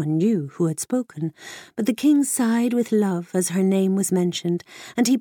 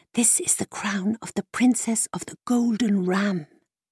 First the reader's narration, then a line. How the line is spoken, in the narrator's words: the thin, starveling mare, who was behind them, whispered